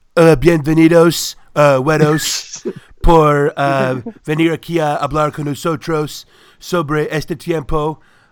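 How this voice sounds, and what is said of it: Donald Trump impression in Spanish. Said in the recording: “can you do a Trump impersonation speaking Spanish?”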